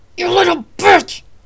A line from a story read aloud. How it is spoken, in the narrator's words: He yelled